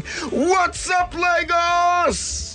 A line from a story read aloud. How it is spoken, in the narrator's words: screaming